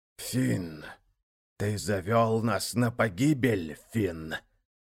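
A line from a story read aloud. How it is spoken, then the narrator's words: Hoarse, spiteful voice. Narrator (Russian): полный злобы хриплый голос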